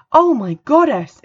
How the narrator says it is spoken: exclaimed Bethany

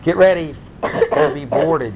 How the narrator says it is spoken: yelled Hunter

